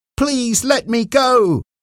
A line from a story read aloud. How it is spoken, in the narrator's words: Mark cried